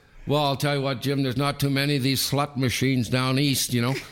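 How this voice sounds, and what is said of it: Imitates another person's accent. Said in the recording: “He had the great accent, you know.”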